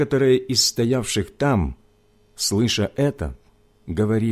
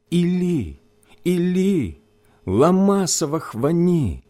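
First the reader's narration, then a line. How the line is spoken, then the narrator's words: Loud anguished cry. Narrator (Russian): возопил Иисус громким голосом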